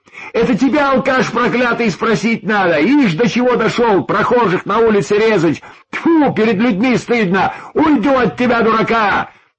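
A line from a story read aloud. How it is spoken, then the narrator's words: Woman's angry shouting. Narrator (Russian): гневно кричала женщина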